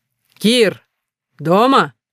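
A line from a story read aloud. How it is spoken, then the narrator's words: Shouted. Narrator (Russian): крикнул Медянский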